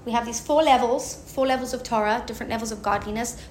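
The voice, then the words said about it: Speaks with a noticeable accent. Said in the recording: “with my accent, it's funny”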